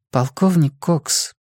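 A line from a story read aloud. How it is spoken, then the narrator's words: Quiet voice. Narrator (Russian): тихим голосом обратилась к нему Джулия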